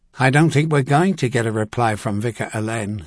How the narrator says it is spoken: he continued now, his tone flat

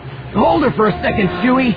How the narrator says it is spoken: Han yelled

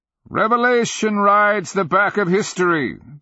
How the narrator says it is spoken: the Nonman cried

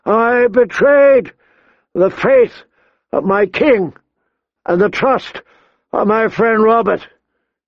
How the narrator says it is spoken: he shouted

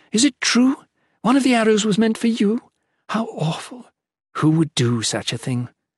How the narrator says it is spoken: Fenner exclaimed

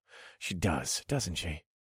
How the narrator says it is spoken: I grunted

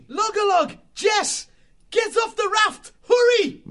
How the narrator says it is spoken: Matthias shouted urgently

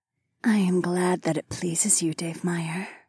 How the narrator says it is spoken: Fila whispered against my jaw

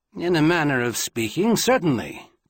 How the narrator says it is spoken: Quentin replied

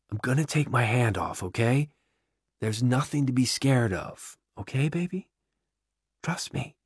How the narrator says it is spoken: whispers

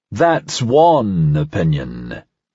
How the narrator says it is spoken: Parnasse rumbled, just loud enough for Talia to hear

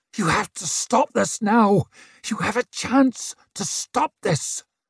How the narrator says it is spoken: hissed Brint from the side of his mouth

